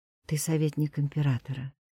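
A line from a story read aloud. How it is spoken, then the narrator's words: Quiet, strange-sounding voice. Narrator (Russian): сказала тихо, и голос прозвучал чужим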